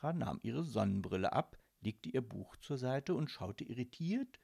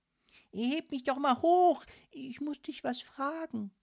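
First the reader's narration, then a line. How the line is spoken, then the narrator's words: Cautious but firm call. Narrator (German): rief Sunny noch einmal und schaute vorsichtig, aber bestimmt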